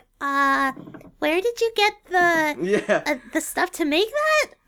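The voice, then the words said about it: Imitates a cartoon character's voice. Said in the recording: “That's a really good Ruby impression.”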